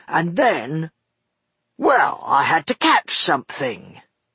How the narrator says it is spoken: replied Buster irritably

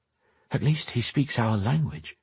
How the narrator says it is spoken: Lenora whispered back

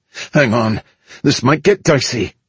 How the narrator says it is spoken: Kelly said through gritted teeth

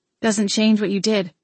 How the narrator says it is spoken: I replied

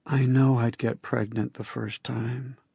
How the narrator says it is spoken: she whispered in my ear

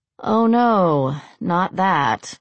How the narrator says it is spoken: Molly said dryly

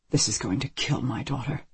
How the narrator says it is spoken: Richard Dries says to the detective under his breath

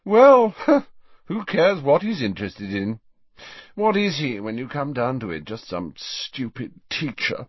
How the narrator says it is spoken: Malfoy yawned ostentatiously

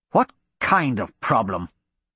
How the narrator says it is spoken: Archibald snarled

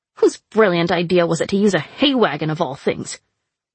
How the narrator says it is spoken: sputtered

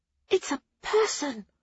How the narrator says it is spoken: Nona gasped it past gritted teeth

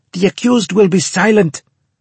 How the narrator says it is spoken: Turov shouted

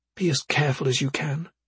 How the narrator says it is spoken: she whispered

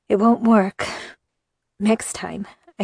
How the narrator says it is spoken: I said, between breaths

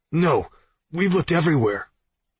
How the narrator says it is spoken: Zeke barked at the speakerphone

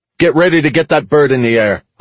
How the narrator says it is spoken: I called out to Gretchen over the comm

